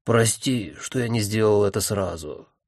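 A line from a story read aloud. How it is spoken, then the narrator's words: Embarrassed sigh. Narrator (Russian): смущенно вздохнул Таункрафт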